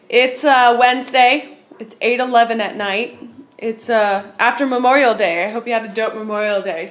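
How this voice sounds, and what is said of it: Odd, off-sounding voice. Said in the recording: “If you can't tell in my voice, I sound funny ... because I have allergies ... I sounded kind of nutty ... I still sound kind of nutty”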